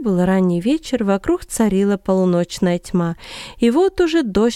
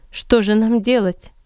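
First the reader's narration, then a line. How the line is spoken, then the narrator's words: Plain question. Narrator (Russian): спросил Павел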